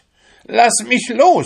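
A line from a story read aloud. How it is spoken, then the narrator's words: Shouting. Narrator (German): schrie sie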